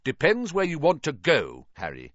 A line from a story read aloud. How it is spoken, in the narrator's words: said